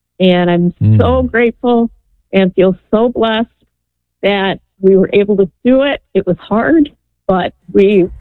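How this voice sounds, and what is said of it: Choked-up emotional voice. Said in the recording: “sorry, I'm a little choked up.”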